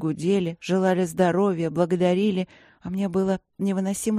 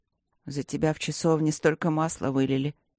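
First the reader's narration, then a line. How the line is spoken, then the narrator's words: Low-voiced explanation. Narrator (Russian): пояснил он вполголоса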